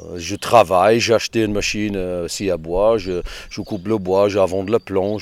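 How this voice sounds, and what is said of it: English accent speaking French. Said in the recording (French): “Il a un petit accent... je suis anglais... c'est pas du tout l'accent creusois”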